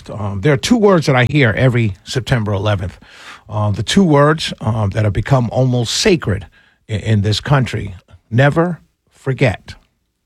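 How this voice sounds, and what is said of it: New York accent. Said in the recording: “being born and raised in New York and having New York in my blood, still maintaining my accent”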